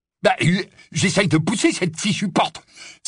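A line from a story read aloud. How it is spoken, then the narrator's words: Exclaiming. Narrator (French): s'écria Amicus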